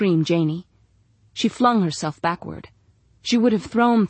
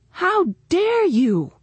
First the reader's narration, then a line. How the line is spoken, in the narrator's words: screamed Janie